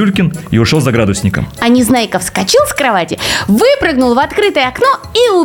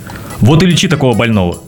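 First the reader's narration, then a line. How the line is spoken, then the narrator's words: Grumbling. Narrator (Russian): проворчал Пилюлькин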